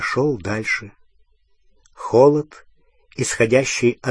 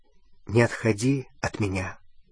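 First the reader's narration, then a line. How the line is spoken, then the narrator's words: Quiet. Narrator (Russian): сказал он тихо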